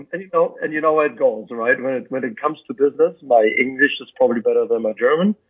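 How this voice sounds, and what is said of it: German accent. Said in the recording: “I was born and raised in Germany. You detected my accent.”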